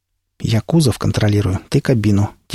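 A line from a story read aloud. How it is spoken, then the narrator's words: Quiet. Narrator (Russian): тихо сказал Пригоршня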